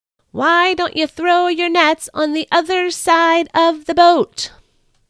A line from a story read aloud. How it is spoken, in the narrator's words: The man on shore cupped his hands and called out again